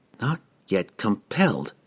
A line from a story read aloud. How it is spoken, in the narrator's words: she whispered to herself